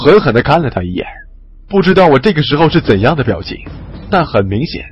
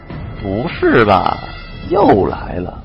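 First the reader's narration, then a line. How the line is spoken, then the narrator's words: Muttering. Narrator (Chinese): 身后的二鬼子翻译嘀咕了一句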